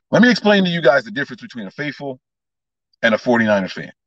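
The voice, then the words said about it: Loud, near-yelling speech. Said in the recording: “if it seems like I'm yelling ... Lower the volume ... I'm speaking loud because my phone's in this big brick case”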